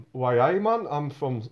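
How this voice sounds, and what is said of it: Put-on Newcastle accent. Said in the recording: “I can't do any impression ... I'm just insulting everyone from Newcastle”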